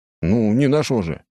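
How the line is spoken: Snort. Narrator (Russian): хмыкнул

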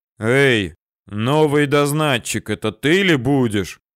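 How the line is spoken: Deep bass voice. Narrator (Russian): пробасил он

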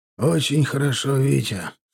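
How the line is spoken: Gloomy. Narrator (Russian): мрачно проговорил Кулым

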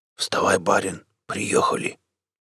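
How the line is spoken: Whisper. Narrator (Russian): Бородатый ямщик шептал

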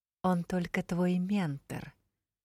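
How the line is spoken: Whisper. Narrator (Russian): шепнул Каас

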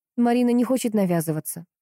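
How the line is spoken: Dry reply. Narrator (Russian): сухо ответила Анна

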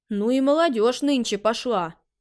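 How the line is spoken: Grumbling. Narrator (Russian): заворчал Чуньтао

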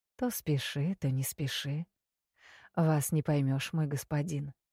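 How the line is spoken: Purr. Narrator (Russian): промурлыкала я

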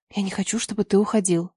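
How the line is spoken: Whisper. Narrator (Russian): прошептала

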